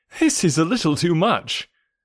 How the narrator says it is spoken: said I, laughing

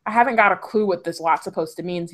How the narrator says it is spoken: he said

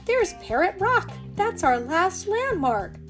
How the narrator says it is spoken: cried Molly

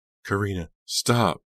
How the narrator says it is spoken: Delia begged

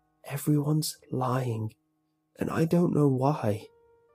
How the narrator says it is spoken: After a long silence, he said softly, barely more than a whisper

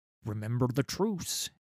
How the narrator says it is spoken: hissed urgently

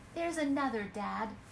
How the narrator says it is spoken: cried Jill

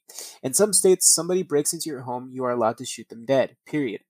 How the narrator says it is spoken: said Daly

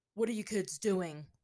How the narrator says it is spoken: one man growled to them

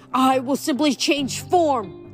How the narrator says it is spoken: cried

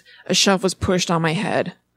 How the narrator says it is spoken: He groans

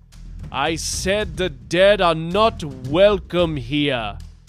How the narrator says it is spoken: boomed Alawi

